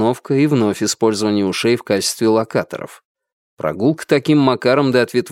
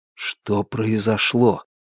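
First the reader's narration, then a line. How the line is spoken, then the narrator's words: Quiet question. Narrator (Russian): тихо спросил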